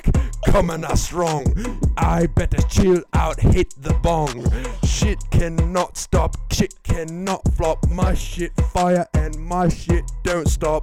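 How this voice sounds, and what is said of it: Rapping in a British accent. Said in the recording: “why does ... go in with the British accent? ... what is with the British accent? Why do you rap so much better with ... the British accent?”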